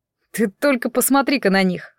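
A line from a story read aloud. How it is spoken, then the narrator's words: Exclamation. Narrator (Russian): воскликнулся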